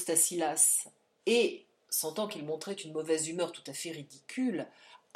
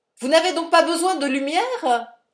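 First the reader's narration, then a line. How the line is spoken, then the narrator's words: Shouting. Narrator (French): cria le portier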